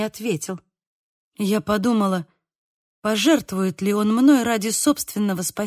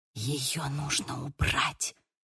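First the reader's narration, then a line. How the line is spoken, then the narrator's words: Whispered. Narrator (Russian): зашептала она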